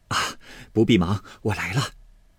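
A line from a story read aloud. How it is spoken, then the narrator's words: Laughing. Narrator (Chinese): 柳家的笑说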